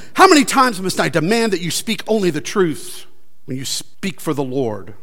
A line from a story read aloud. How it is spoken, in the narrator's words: the king replied sharply